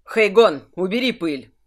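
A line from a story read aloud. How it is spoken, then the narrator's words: Barking. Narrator (Russian): рявкнул Кирсан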